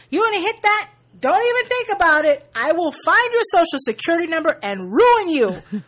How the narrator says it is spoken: Sasha yells to every girl in earshot

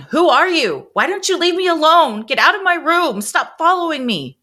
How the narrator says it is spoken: She was yelling

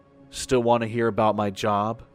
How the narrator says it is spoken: He said in an amused tone

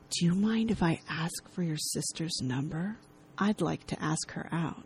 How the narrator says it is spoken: He whispers

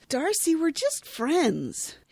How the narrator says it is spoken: Rachel exclaims

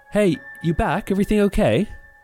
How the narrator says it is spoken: she called out

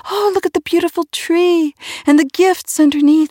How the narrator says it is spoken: the children came racing and shrieking, exclaiming

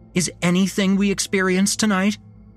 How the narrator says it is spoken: She snapped back

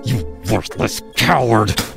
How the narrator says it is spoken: John spat

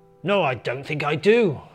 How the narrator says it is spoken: spluttered Santa, clearly now bloated and pissed on a million mince pies and several baths worth of sherry

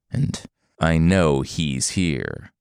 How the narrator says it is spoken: Forest Monster growled

